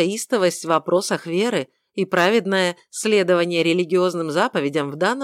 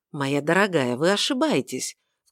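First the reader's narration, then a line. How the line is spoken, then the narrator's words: Smooth ingratiating tone. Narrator (Russian): вкрадчиво произнес он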